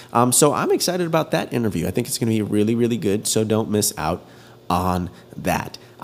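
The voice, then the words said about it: Stuffy, congested nasal voice. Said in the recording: “I sound a little weird today ... Nose is stuffy or stuffier than usual”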